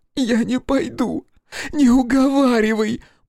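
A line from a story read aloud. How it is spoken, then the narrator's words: Hoarse wheeze. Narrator (Russian): просипел тот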